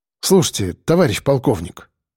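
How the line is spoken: Calm. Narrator (Russian): спокойно сказал Сальников

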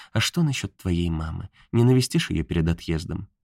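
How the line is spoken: Timid question. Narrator (Russian): робко спросила

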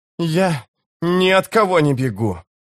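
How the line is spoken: Hoarse warrior croak. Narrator (Russian): прохрипел воин

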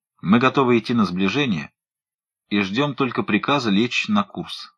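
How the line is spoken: Plain. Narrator (Russian): сказал Уайлдер

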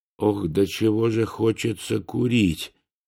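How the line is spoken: Muttered. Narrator (Russian): пробормотал я

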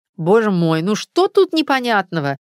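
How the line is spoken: Irritated snap. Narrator (Russian): раздраженно бросила Алла Дмитриевна

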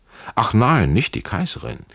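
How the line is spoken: Call with ugly laugh. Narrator (German): rief er mit einem unschönen Lachen

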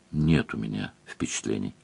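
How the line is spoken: Quiet. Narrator (Russian): сказал Леверлин тихо

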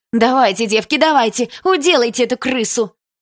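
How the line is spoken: Yelling. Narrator (Russian): Кто-то заорал

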